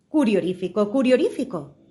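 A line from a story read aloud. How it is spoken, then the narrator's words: Exclaiming. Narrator (Spanish): exclamó Alicia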